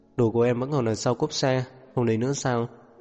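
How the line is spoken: Sighing. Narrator (Vietnamese): Diệp Uyên thở dài

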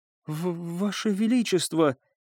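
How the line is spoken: Trembling priestess. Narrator (Russian): проговорила жрица дрожащим голосом

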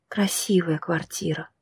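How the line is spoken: Quiet. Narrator (Russian): сказала тихо

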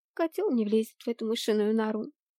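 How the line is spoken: Habitually critical tone. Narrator (Russian): привычным критическим тоном сказала Блэр

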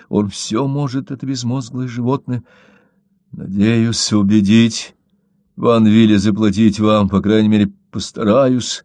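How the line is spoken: Barely audible. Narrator (Russian): еле слышно произнес он

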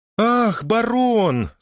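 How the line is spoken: Exaggeratedly enthusiastic exclamation. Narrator (Russian): с преувеличенным энтузиазмом воскликнула

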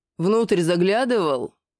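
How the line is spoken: Growl. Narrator (Russian): Рыкнул Рогат

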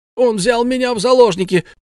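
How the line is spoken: Shouted. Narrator (Russian): Тут же крикнул Арни

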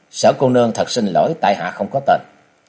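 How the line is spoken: Cold. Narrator (Vietnamese): chàng lạnh lùng nói

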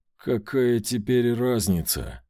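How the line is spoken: Through gritted teeth, restrained anger. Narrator (Russian): процедила я сквозь зубы, с трудом сдерживая злость

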